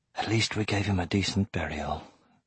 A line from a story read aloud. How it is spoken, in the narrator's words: he whispered